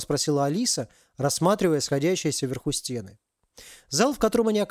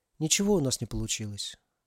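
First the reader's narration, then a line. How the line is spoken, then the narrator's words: Sigh. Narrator (Russian): вздохнула Алиса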